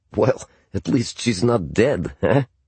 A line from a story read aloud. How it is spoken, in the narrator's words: he chuckled